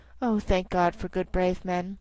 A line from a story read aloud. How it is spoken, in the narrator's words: She sighed, and positively a shadow of a smile stole over her poor pale face, and she put her arms round me and said softly